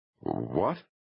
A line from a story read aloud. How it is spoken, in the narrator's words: stammered